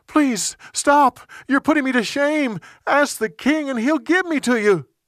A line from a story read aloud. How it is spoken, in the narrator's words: She begged him